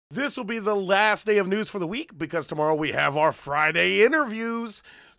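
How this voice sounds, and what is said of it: Slightly hoarse, gritty voice. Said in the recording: “My voice is a little hoarse today ... maybe just with a little more grit”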